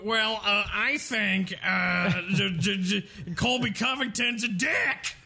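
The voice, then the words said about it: Ben Askren impression. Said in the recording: “would do a Ben Askren impression”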